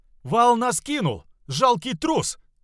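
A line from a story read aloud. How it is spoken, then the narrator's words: Angry shout. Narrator (Russian): закричал солдат-музыкант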